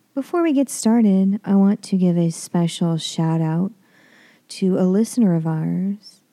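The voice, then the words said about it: Sick, not quite normal voice. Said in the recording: “I am a little under the weather this week, so my voice is not quite normal.”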